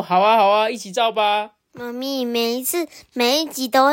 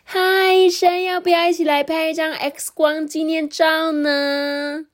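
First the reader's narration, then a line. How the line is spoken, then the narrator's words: Young woman calling out. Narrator (Chinese): 一位金发漂亮的女孩叫住他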